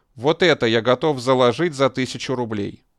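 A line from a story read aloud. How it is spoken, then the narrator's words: Loud. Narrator (Russian): громко сказал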